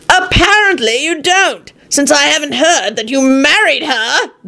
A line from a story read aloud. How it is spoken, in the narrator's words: John shouted triumphantly